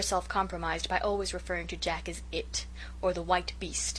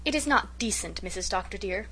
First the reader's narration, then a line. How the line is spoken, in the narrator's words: poor Susan would say bitterly